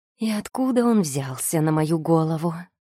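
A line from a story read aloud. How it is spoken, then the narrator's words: Inward moan. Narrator (Russian): мысленно простонала я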